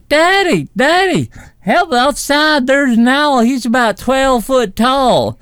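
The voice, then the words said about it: Imitates child's voice, Southern accent. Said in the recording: “my impression ... he's Southern in my rendition”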